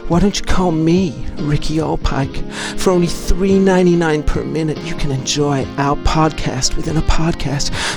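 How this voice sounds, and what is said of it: Put-on sultry sexy voice. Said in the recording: “do you like my sexy voice?”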